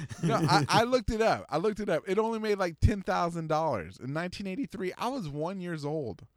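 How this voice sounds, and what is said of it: Speaks English with an accent. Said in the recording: “My accent is getting in the way right now. How do you say that correctly?”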